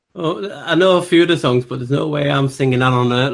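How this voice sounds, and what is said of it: Speaks with a noticeable accent. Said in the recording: “you sound adorable with your accent.”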